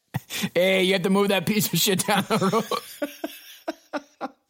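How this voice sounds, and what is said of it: Thick put-on New Jersey accent. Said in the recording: “some guy in a thick New Jersey accent”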